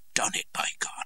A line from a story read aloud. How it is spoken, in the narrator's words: I heard him gasp with pain and exclaim